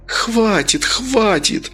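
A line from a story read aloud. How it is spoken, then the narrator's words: Moaning. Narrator (Russian): застонала Оксана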